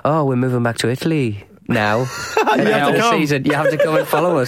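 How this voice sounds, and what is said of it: Put-on Italian accent. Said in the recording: “That is a fascinating Italian accent.”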